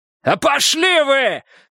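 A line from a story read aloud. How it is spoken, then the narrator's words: Yelling at full strength. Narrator (Russian): заорал, что было сил Переверзев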